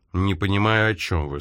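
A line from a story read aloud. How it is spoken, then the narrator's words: Calm. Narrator (Russian): спокойно ответил Джонс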